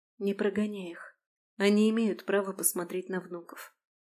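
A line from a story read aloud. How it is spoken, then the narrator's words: Soft request. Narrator (Russian): негромко попросила Алисия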